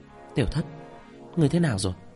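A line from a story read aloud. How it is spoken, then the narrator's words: Soft question. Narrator (Vietnamese): Mã Tiểu Tiểu hỏi nhỏ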